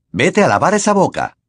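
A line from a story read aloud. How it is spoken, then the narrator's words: Snapped. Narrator (Spanish): le espetó James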